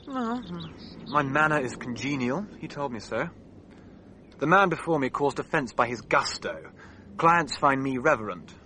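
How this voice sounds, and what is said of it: Melancholy English accent. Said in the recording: “the combination of melancholy with an English accent”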